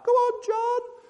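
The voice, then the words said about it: Exaggerated impression of wife cheering. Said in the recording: “She doesn't speak like that. ... Just my impression.”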